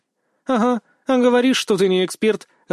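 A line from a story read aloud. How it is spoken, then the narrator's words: Laughing. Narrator (Russian): рассмеялась Вика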